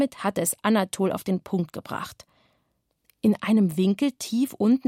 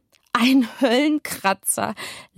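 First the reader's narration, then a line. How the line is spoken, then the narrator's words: Laughing. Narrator (German): lachte Kevin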